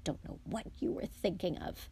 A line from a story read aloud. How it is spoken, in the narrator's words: she muttered